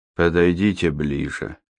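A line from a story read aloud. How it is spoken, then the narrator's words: Flat colorless voice. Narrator (Russian): произнес он настолько бесцветным голосом, что это можно было в равной мере воспринять как приглашение и как приказ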